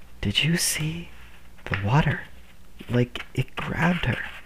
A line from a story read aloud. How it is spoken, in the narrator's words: Some of the kids were whispering